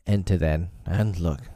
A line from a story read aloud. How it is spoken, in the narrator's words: said Father Wolf, stiffly